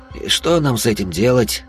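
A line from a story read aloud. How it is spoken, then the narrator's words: Sighing. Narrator (Russian): вздохнул сыщик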